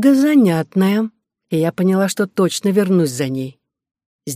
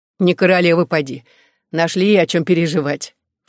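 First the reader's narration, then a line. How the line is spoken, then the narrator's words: Snorting. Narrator (Russian): фыркнула Клара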